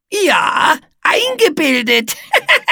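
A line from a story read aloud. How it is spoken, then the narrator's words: Giggling. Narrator (German): kicherte Etze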